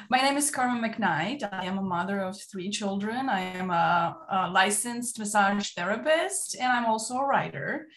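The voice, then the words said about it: Romanian accent. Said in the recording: “Maybe you might be able to tell by my accent ... Originally, I come from Romania.”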